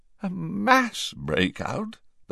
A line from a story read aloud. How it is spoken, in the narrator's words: the Prime Minister had repeated hoarsely